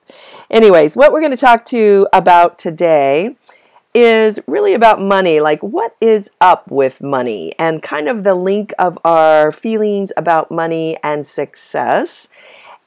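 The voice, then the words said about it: Hoarse, slightly deeper voice. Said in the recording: “I'm getting over a little bit of a bug, so my voice is a little hoarse or a little different, but maybe that's a deeper sound”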